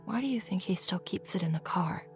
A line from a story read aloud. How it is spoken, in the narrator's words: Mom whispered